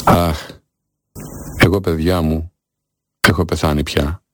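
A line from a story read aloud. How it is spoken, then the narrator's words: Sighing. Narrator (Greek): Αναστέναξε και είπε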